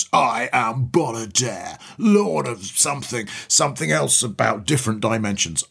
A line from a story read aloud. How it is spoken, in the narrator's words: roars in this terrifying voice